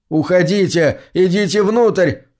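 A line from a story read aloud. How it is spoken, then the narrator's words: Yelling. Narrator (Russian): заорал он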